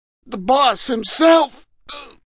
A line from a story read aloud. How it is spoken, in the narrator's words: Dutch Schultz moaned